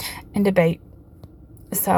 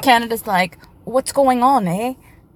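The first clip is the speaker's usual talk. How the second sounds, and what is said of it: Put-on Canadian accent. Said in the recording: “There's my Canadian accent.”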